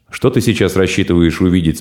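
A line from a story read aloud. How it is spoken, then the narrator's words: Plain. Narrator (Russian): спросил Сухопарый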